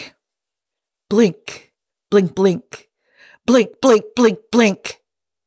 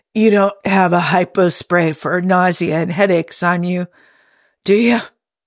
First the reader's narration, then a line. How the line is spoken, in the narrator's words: Jim croaked